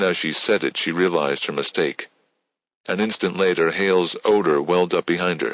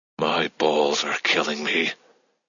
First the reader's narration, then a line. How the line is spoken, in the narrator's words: Hale panted in her ear